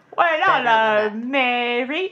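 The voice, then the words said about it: Exaggerated British accent. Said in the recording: “that was too much accent for Dick Van Dyke”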